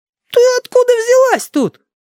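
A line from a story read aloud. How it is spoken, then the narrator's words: Surprised yelling. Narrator (Russian): опять заорал Филипп, скорее от удивления, чем от злости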